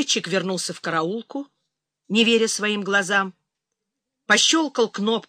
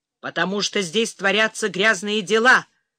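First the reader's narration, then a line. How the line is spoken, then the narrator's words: Growl while moving. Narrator (Russian): прорычал Гелий уже на ходу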